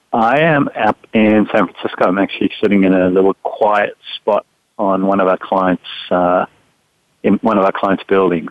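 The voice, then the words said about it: Speaks with a noticeable foreign accent. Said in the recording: “it's hard to keep people back when you have your accent. You know how the ladies in America love your accent.”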